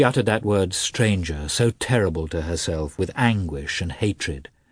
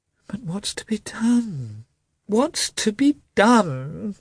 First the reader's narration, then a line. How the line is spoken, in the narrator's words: said he, in a piteous voice, hardly knowing what he was saying